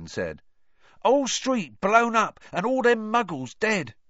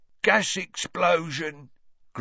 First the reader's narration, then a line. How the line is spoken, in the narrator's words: grunted Ernie